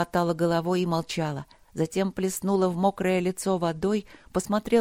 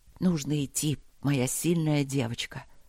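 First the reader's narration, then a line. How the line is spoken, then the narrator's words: Soft whisper into hair. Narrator (Russian): шепнул Макс ей в макушку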